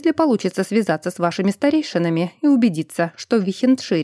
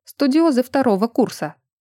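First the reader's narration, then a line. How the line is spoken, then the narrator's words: Calm. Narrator (Russian): ректор говорил спокойно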